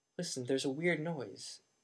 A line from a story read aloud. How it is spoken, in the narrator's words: he said